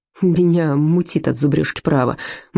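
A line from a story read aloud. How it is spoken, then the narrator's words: Gloomy. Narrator (Russian): мрачно сказал Стоун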